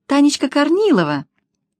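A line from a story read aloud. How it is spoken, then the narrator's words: Joyful reply. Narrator (Russian): радостно ответила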